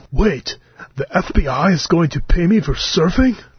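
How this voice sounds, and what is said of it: Imitates another person's voice. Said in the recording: “That's my Keanu Reeves impression.”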